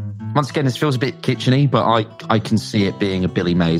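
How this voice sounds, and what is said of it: Usual voice. Nothing is said of it.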